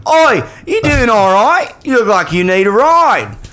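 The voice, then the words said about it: Put-on Australian-sounding accent. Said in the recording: “I'm trying to do English. All my accents turn Australian because that's like my best one... You love Australian... we'll just pretend she was Australian”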